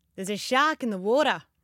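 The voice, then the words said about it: Put-on Australian accent. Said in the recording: “the easiest sentence to get an mm. Australian accent ... Actually, that's good ... it's really good”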